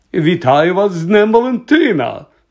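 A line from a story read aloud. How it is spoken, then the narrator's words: Exclaimed. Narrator (Ukrainian): вигукнув Локарт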